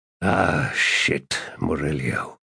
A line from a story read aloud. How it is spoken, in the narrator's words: he muttered